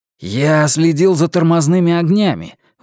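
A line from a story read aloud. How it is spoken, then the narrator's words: Excited exclamation. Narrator (Russian): возбужденно воскликнул Томми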